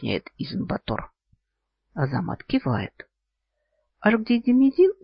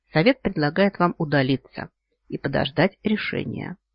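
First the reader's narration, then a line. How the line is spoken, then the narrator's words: Matter-of-fact elder. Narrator (Russian): будничным тоном сообщает старейшина Асунду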